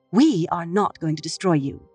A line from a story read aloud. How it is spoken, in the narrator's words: Elaine said firmly